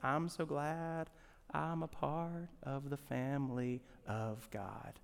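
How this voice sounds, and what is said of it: Put-on Southern accent, singing. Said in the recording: “go back into the Alabama that I was born in and pull up some southern accent”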